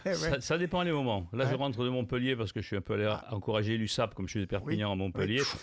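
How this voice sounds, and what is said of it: Slight southern French accent. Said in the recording (French): “petit accent du sud.”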